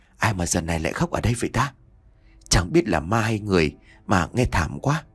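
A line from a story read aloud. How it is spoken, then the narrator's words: Soft whisper. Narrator (Vietnamese): Mai thì thào nhẹ như là tiếng gió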